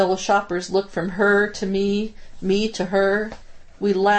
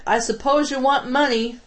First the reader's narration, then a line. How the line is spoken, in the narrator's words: She yelled back